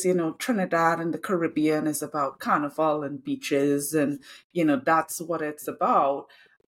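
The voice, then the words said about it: Trinidadian accent. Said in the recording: “what's your accent? ... oh, I love your accent ... from Trinidad”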